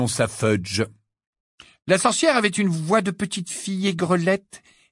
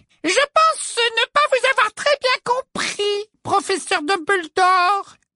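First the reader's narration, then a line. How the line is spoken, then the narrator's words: Simpering tone. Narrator (French): dit-elle d'un ton minaudant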